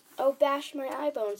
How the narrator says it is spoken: he cried

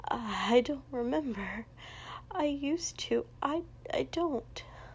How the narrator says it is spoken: Rei murmured

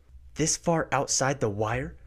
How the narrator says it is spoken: Ren blurts out

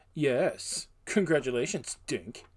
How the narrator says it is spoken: one boy who sneered at Dunk and said

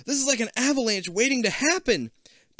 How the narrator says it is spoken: She shrieks

